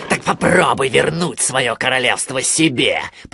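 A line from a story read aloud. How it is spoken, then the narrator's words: Growling. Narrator (Russian): прорычал он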